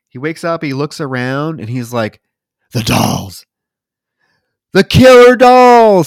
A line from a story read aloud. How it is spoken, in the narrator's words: he screams